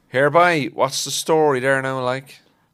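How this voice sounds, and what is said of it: Cork accent. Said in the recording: “What's the essential Cork phrase in a Cork accent?”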